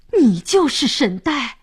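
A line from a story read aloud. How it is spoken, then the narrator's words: Surprised shout in unison. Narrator (Chinese): 三位神明惊讶地齐声喊道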